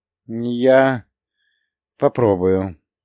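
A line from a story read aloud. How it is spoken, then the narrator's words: Hesitant old woman. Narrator (Russian): неуверенно произнесла старуха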